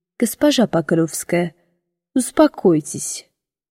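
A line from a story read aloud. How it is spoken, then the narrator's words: Cold, restrained. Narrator (Russian): Холодно, сдержанно произнес он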